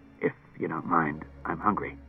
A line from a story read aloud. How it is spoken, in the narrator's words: Clusar muttered